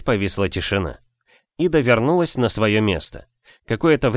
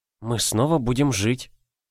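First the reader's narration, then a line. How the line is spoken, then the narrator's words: Quietly. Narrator (Russian): тихо проговорила Ида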